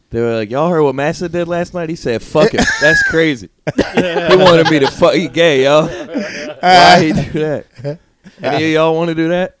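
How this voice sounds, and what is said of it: Impression of a Black man's voice. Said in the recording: “my impression ... of a black ... guy”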